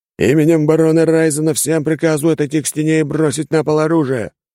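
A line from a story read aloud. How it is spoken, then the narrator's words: Yelling guard. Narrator (Russian): завопил стражник в кольчуге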